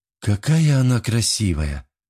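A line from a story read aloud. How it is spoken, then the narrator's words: Breathless. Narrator (Russian): выдохнула Алис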